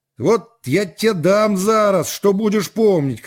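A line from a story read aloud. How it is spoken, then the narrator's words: Officer shouting. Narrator (Russian): крикнул офицер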